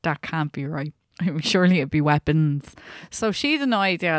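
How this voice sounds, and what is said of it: Usual voice. Nothing is said of it.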